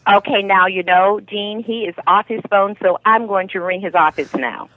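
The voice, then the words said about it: Mixed New York, Caribbean, Boston accent. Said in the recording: “we love your accent ... When she said New York, I heard the New York. ... I think it's Caribbean that I hear. ... Well, it's lovely ... And the Boston comes out as well.”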